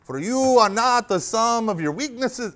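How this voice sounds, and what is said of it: Polish accent drifting toward Mexican. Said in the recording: “That was kind of becoming a Polish to a Mexican accent. So we'll just drop the accents”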